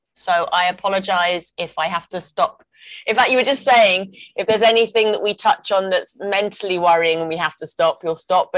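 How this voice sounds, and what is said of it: Congested voice with a cold. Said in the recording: “I have a cold ... there will be a torrid of snot now and then”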